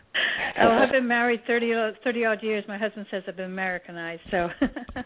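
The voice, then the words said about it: English accent. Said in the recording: “I love your accent as well ... Originally from England”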